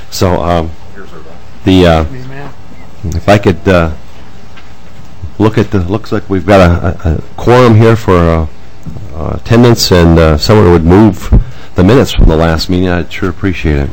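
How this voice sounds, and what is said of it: Nasal, hoarse voice. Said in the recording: “I'm talking through my nose. ... I'm losing my voice.”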